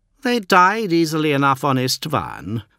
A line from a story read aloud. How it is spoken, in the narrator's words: sneered Fulgrim